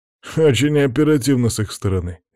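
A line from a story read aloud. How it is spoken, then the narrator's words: Snide remark. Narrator (Russian): ехидно заметил Макс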